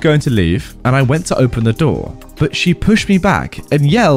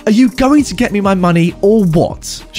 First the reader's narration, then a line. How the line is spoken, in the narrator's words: snaps